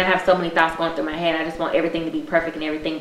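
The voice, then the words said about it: Fast, slurred tipsy speech. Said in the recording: “my drinks are kicking, and that's why I'm talking so fast and I'm slurring.”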